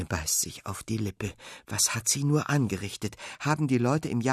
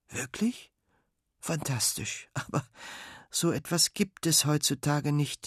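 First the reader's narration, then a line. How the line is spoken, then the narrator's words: Sad. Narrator (German): sagt John traurig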